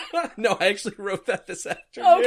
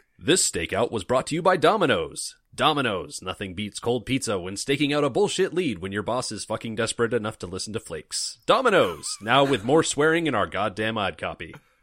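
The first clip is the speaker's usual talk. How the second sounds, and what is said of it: Radio announcer voice. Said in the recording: “put on my radio voice.”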